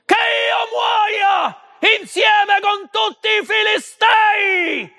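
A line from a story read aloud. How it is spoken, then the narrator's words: Scream. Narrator (Italian): urlò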